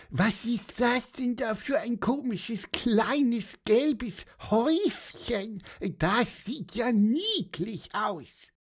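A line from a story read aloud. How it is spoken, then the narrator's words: Squeaky voice. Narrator (German): piepste Pieper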